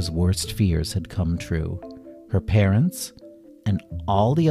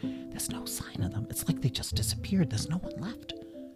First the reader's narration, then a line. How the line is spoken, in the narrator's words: Trini and a group of other adults whispered to each other